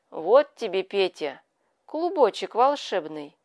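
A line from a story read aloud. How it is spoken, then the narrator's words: Solemn. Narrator (Russian): сказала Яга торжественно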